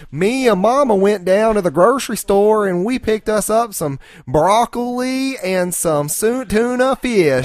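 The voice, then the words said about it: Exaggerated thick Southern US accent. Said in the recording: “I read it with an incredibly thick South accent.”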